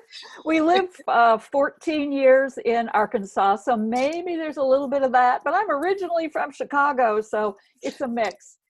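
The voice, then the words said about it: Mild Southern accent. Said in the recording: “I am detecting an accent ... that's a Southern accent ... it's not that thick”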